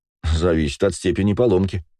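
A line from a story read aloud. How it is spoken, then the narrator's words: Wry chuckle. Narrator (Russian): хмыкнул я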